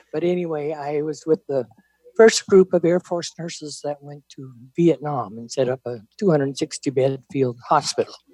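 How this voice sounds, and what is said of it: Hoarse, quiet voice. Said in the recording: “you might need to speak up a little bit ... My voice is a little hoarse today”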